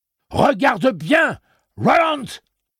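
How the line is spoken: Yelling. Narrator (French): hurla-t-il

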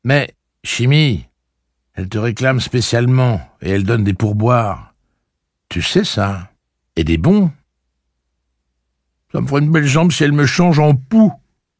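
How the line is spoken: Grumbling. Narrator (French): dit Chimie d'un ton grognon

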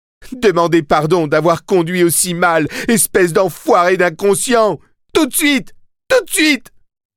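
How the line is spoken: Moaning. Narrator (French): Otey se mit à gémir et dit

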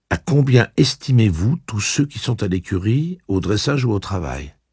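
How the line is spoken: Plain question. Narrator (French): demanda-t-il

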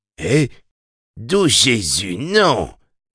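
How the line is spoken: Moaned. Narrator (French): gémit Pimli Prentice

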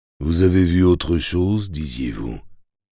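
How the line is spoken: Whispered. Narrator (French): soufflai-je

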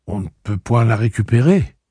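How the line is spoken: Rather timid question. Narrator (French): demanda-t-elle assez timidement

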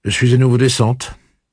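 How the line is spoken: Unusually curt. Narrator (French): dit-elle d'un ton sec qui lui était assez étranger

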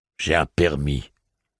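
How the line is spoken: Plain. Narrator (French): dit-il

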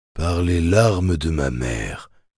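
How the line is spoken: Low voice, slipped out. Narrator (French): laissa-t-il échapper à voix basse

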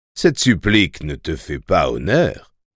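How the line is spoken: Plain. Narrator (French): dit-il

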